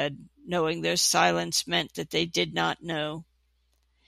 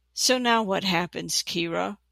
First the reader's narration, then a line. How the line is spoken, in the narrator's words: Reineth asked rather shakily, breaking the uneasy silence